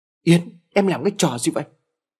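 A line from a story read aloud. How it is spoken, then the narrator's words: Loud shout. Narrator (Vietnamese): Tú hét lớn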